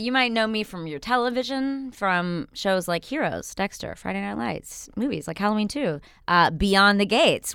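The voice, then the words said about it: Slight Southern accent, fast talker. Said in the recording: “We both talk super fast. I have a slight southern accent”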